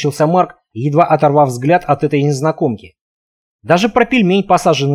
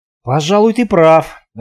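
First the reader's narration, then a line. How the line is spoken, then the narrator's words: Forced out. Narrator (Russian): выдавил я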